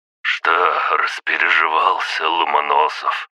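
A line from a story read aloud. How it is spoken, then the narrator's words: Hoarse rasp. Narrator (Russian): прохрипел Аврелий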